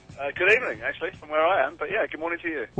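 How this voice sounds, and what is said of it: British accent. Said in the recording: “a very, very, very, very good British accent”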